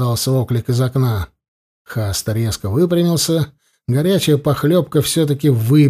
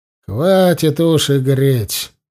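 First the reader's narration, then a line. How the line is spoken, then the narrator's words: Mocking. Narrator (Russian): насмешливо продолжал Зарни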